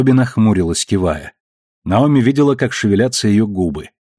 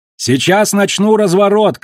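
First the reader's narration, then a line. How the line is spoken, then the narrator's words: Shout. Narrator (Russian): крикнула она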